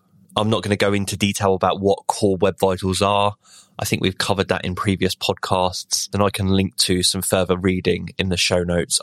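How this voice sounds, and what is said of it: Ill, strained voice. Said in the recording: “I got COVID for the first time. I started feeling ill a couple of days ago and it's really hit me hard today. So I apologize if my voice isn't greatly listenable today”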